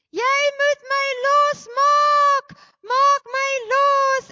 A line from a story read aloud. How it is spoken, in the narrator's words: a weeping and a wailing and a yelling